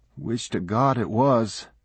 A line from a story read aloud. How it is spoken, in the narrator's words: quavered somebody else